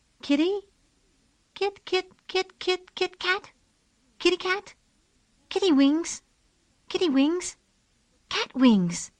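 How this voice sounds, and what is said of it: Soft, high-pitched character voice. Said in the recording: “Susan said in a soft, high voice.”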